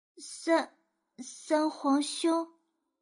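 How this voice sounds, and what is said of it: Timid, quiet calling out. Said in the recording (Chinese): “小声叫了句”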